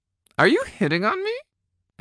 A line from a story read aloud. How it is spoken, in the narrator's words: I squeaked